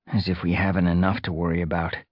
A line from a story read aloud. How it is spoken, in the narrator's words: Fireheart muttered